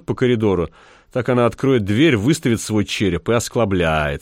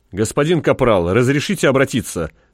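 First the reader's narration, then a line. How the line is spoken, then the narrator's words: Barking. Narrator (Russian): рявкнул он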